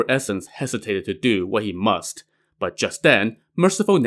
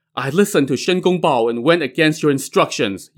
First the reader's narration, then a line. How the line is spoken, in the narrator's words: Yin Hong pleaded